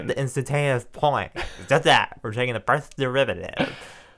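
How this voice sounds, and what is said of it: Impression of a math professor. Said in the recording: “Barry Mac ... do your impression ... That's how he would talk ... Spot on. That's how he spoke.”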